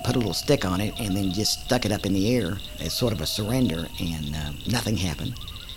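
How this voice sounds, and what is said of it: Oklahoma accent. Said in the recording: “this Okie accent”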